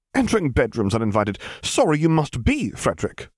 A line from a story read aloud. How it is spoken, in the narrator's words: cried the vampire